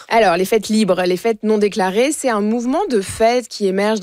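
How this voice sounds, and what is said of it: Speaker's own regional French accent. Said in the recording (French): “On se moquera pas de mon accent ce matin. ... La diversité d'accent est très importante à notre micro.”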